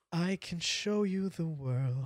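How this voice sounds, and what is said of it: Off-key singing Disney character voice. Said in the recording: “do your best Disney impersonation ... he went Aladdin ... that was all sorts of off key”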